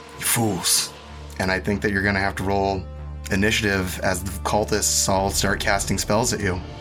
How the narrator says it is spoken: Isaac sighs and says

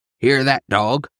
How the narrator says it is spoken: bellowed

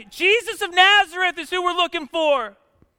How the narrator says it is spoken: they shout back

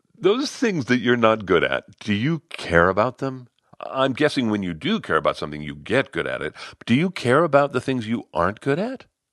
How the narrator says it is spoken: She gave a chuckle

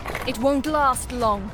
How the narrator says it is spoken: cried Kithria

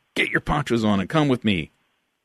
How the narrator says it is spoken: Frank shouted over the storm

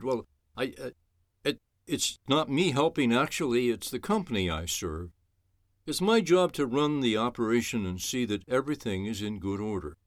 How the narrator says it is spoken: he stammered

